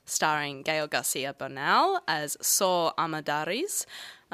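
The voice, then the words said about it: Slight put-on accent on names. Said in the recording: “caught myself putting on a bit of an accent there”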